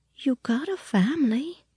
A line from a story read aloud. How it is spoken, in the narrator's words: she said faintly